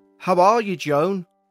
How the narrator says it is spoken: shouted again, this time looking up

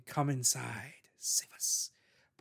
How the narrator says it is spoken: the whisper again saying

